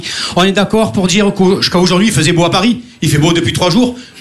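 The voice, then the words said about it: Marseille French accent. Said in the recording (French): “avec un accent pareil ... Une vendeuse a entendu mon accent. Elle a fait « Ah, Marseillais”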